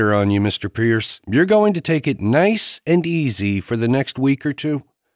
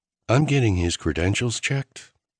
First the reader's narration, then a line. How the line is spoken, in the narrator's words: Arden muttered